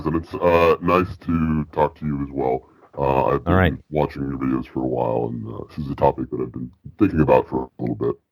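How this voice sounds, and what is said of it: Distorted, vocoder-like rough voice. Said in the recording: “I assume you're going through a vocoder... extremely bad cold or blues singing career... you sound like my evil conscience”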